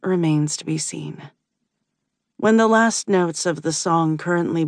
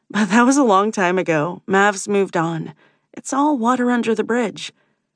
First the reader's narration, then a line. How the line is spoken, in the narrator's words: she blurts